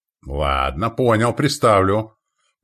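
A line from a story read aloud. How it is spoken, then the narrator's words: Displeased grumbling. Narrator (Russian): проворчал недовольно Захар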